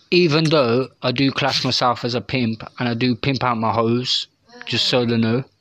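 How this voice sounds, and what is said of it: British accent. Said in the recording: “I kind of figured you were from the UK by your accent.”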